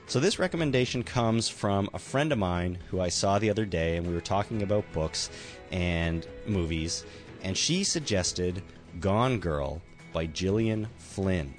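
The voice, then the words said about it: Sick, bad-sounding voice. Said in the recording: “I am sick and my voice is so bad this week”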